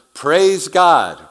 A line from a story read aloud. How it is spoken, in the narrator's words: They shouted